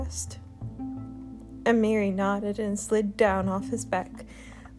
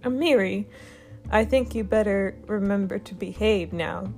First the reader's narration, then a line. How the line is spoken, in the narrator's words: Dragon Mist said, his voice cracking a little at the end as he let out a laugh